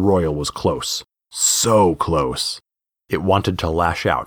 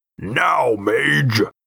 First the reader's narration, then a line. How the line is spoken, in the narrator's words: Gideon snarled